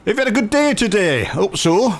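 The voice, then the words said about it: Put-on Yorkshire accent. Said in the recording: “I went into a Yorkshire accent then”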